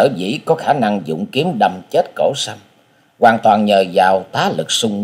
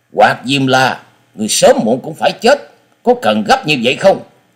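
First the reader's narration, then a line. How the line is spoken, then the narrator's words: Angry. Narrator (Vietnamese): Sinh Tử Phán Hồ Bưu giận dữ nói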